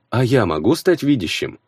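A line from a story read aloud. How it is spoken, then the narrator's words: Plain. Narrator (Russian): спросил я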